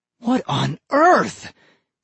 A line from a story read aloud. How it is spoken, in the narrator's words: he cried